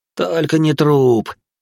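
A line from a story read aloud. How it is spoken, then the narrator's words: Moaned. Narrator (Russian): простонал Баженов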